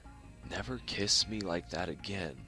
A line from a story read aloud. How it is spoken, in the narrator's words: he mumbled